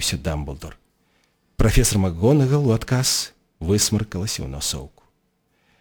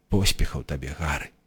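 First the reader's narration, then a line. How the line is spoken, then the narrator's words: Muttering. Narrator (Belarusian): прамармытаў Дамблдор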